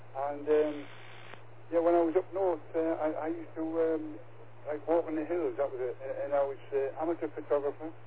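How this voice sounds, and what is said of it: Geordie northern English accent. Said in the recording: “You might recognise a different accent to some people over England. Yeah, I'm a northern lad, a Geordie boy.”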